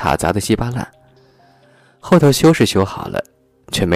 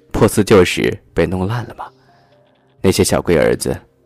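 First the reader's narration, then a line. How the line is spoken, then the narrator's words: Sighing. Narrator (Chinese): 司机叹了口气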